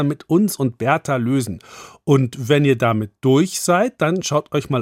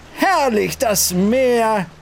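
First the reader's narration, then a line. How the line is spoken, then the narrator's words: Called out. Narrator (German): rief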